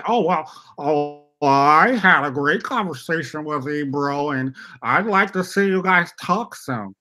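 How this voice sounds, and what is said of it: Mock white-sounding voice. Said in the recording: “With his white accent.”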